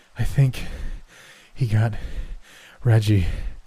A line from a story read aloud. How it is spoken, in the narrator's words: one of them said, still gasping between words